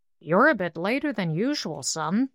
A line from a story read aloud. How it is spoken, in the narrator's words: he growled pleasantly